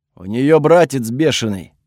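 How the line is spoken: Rough male voice. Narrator (Russian): ответили ему мужским грубым голосом

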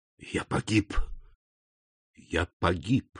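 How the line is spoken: Whispered. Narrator (Russian): прошептал он

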